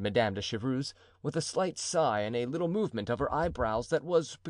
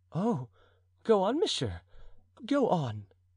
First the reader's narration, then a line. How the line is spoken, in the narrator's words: said Madame de Chevreuse eagerly